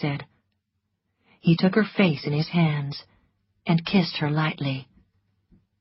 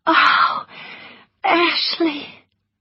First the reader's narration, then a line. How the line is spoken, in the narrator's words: she whispered happily